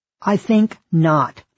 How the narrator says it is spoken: the Reverend said sharply, as if intuiting our intention

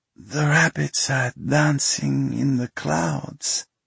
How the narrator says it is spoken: Pasha murmured

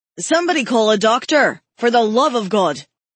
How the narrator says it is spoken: Andrew shouted

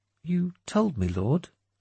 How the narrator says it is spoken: she said meekly

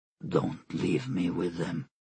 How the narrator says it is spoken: he said in a low voice

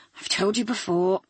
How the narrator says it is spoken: he said, his voice weary

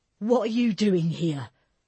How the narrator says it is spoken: Tommy cried, his booming voice

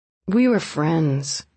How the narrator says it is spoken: he said wearily

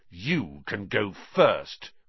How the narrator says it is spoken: Ron snarled

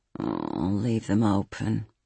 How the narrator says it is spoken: he mumbled

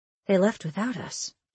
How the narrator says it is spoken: I murmured

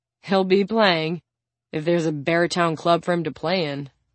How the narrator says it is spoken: she says with a dry laugh

